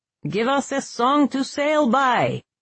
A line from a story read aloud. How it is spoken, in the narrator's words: he roared